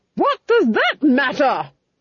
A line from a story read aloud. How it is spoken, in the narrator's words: she roared